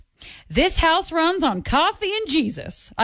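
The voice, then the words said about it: Put-on Southern accent. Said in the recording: “I feel like that one needs to be said in a southern accent, so I did my best.”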